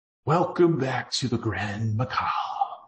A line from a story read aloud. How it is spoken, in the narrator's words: projected its natural whispering voice